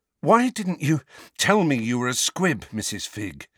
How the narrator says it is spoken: asked Harry, panting with the effort to keep walking

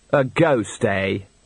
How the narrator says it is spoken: said Andre sarcastically

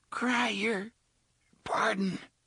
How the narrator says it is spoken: the man with the frizzy red hair gasped

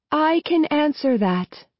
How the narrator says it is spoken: she says, her voice ringing and melodious

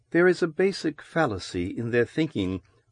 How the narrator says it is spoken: Loris murmured, half to herself

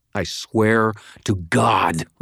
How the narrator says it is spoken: snarled

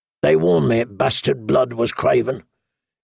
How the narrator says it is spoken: Corrin Halfhand say coldly

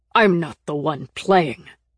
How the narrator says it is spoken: Kaufman snarled back

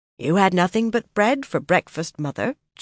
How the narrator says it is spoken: Chesa said in a mildly accusing voice

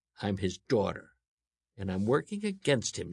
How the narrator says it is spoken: she snapped

